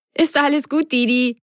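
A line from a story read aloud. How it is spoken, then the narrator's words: Laughing. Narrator (German): lachte Carlotta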